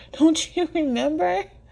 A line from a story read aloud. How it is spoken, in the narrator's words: Trevor chuckles, but it sounds angry and defeated